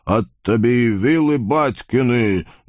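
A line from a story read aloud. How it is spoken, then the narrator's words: Friendly booming. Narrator (Russian): дружелюбно прогудел Вакула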